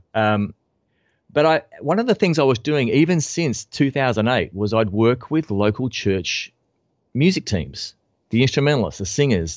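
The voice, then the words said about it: Australian English accent. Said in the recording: “speaker, musician, Australian ... I'm going to milk this accent for all I can.”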